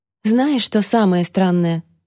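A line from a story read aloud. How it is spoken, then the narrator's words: Sigh, female. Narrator (Russian): вздохнула Алексия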